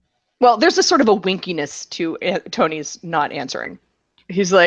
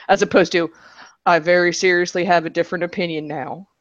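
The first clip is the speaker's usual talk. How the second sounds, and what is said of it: Generic baseball player impression voice. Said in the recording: “That was not supposed to be the Rendon impression. ... That was a Bumgarner impression. ... it was a generic impression of a baseball player”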